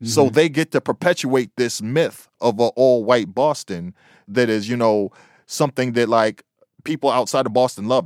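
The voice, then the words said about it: Boston accent, local Bostonian speech. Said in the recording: “you've heard me speak. I live in the heart of Boston, born and raised. This is how a Bostonian sounds.”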